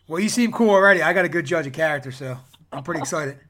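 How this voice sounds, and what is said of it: Philadelphia accent. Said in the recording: “I got an accent, too. So if I'm saying something you can't understand, just let me know, because I'm from Philadelphia.”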